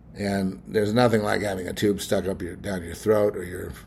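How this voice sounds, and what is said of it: Strained, rough voice. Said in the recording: “my voice is kind of out of it because they stick a tube down my throat and go look around. So that's all screwed up right now.”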